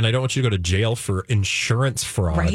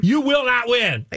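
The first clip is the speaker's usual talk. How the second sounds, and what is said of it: Yelling loudly. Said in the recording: “Why am I yelling?”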